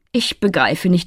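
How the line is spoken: Plain. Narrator (German): antwortete Kristalline

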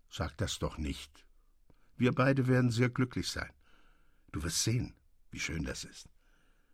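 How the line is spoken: Gentle, calm. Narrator (German): sagte er sanft mit ruhiger Miene

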